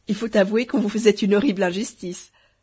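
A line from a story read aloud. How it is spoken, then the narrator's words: Laughing heartily. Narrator (French): dit Dame de Beauté en riant de toute sa force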